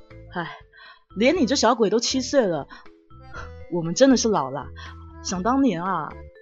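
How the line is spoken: Sighing. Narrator (Chinese): 叹了一口气说

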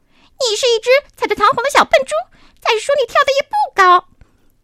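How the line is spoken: Screeching parrot. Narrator (Chinese): 鹦鹉尖叫着说道

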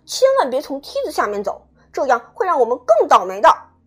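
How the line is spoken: Loud shout, chubby child. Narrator (Chinese): 小胖墩儿高声喊道

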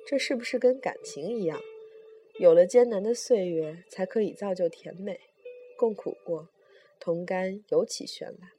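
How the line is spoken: Sighing. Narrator (Chinese): 他叹口气说

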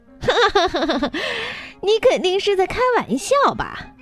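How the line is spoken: Loud laughing. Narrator (Chinese): 老鹰大笑道

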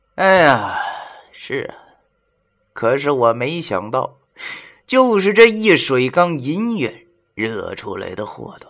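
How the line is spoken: Wry bitter tone. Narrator (Chinese): 文叔苦笑的对我们说

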